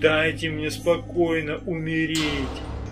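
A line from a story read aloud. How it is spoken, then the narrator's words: Moaning. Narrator (Russian): стонал кто-то еще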